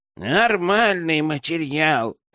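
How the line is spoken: Creaky voice. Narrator (Russian): проскрипел Дейл

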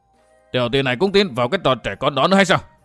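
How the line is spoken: Angry loud question. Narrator (Vietnamese): Nhấp Luân Tôn giả liền tức giận quay lại hỏi lớn

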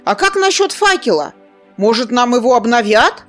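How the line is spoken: Shouted after someone. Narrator (Russian): выкрикнул вслед Зар

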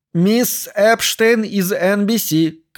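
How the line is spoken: Loud, powerful shout. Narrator (Russian): крикнула Мэри Хилл, заглушив своим могучим голосом конец его фразы

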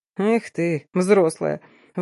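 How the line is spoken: Loud chuckle. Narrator (Russian): в голос хохотнул Тамир

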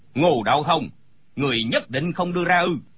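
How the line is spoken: Angry shout. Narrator (Vietnamese): Gã cao kiều giận dữ quát

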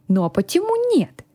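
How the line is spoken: Plain. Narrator (Russian): спросил он

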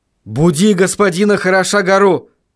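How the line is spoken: Shouted. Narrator (Russian): крикнул он

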